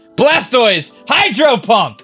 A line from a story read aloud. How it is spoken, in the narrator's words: Lise yelling